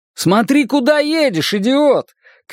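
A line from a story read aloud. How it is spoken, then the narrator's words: Shout. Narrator (Russian): крикнул я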